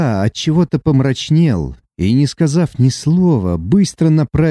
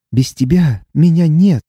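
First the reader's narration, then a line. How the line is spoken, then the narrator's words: Trembling voice. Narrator (Russian): добавила дрожащим голосом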